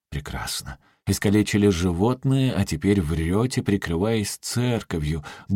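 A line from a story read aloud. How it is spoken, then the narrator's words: Grumbling. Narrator (Russian): буркнул Тидженс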